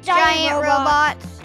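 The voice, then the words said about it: Giant robot voice. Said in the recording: “Ooh, good giant robot voice.”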